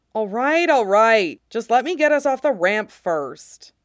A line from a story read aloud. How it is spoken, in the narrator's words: Anakin groans, but glances at Fox and says